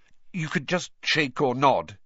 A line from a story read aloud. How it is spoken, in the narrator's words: he added hastily